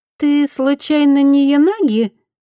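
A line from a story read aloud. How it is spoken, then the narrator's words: Thin little voice. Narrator (Russian): тоненьким голоском спросила бывшая мучительница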